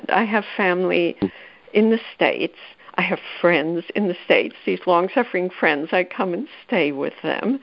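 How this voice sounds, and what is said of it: Noticeable foreign accent. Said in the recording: “as you can probably tell from my accent.”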